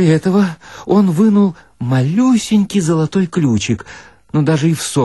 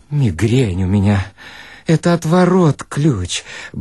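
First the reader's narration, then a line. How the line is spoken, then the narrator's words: Muttering. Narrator (Russian): бормотал Хохолков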